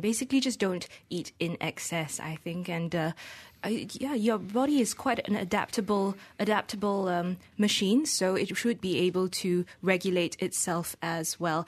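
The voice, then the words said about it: Somewhat English-sounding accent. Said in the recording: “I have a kind of an English accent”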